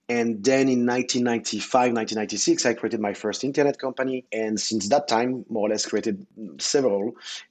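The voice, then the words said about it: French accent. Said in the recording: “I'm French, as you can hear with the accent”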